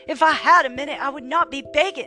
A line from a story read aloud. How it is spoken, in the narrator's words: snapped Carla, a spike of desperation in her voice